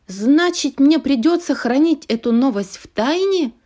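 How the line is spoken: Exclaiming. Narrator (Russian): воскликнула она

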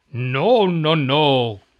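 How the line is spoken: Witch growling. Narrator (Spanish): gruñó la bruja

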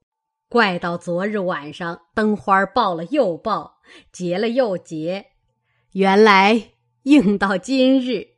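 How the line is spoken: Laughing. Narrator (Chinese): 贾母因笑道

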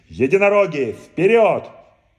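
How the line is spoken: Effortful shout. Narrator (Russian): Радуга собрался силами и крикнул

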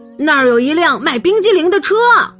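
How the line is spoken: Shouting. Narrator (Chinese): 保尔喊道

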